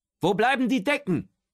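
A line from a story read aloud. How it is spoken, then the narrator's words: Distant call. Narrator (German): ruft Otto von der Treppe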